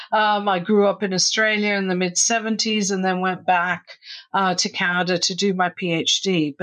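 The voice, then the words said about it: Australian accent. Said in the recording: “We then moved to Australia, hence the accent.”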